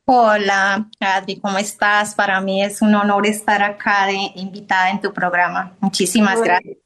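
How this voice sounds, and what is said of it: Colombian Spanish accent. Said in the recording (Spanish): “su tonada, ¿sí? Es muy colombiana”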